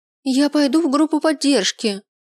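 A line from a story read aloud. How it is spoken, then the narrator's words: Shouting after someone. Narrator (Russian): прокричала мне в спину Аврора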